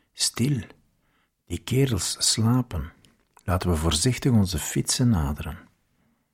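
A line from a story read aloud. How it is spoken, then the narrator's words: Whispered. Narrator (Dutch): fluisterde ik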